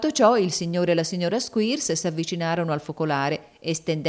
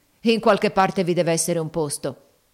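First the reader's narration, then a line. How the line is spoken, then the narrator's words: Plain. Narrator (Italian): disse Squeers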